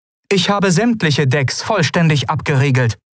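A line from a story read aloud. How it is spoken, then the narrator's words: Sharp reply. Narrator (German): antwortete die Shayang scharf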